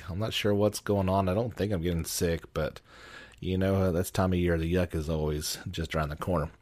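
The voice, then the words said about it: Voice sounds off, strained. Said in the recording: “if you can't tell, my voice is gone a bit crazy”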